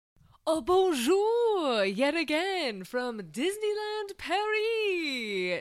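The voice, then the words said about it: Put-on French accent. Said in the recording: “pretend I have a French accent”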